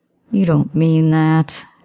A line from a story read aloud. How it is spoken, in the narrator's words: stated flatly